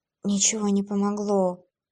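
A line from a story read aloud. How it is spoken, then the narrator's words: Faint, half-conscious mumble. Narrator (Russian): в полуобморочном состоянии пробормотала девушка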